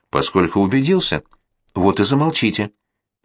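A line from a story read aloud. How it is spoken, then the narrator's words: Sharp interruption. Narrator (Russian): резко прервала его графиня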